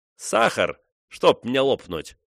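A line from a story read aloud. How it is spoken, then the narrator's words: Cheerful. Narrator (Russian): весело говорил он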